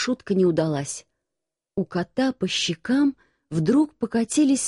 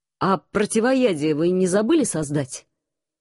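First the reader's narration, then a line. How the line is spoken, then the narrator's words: Growling. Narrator (Russian): рыкнул командор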